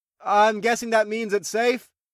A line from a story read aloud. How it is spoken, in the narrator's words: I called out to the dragon telepathically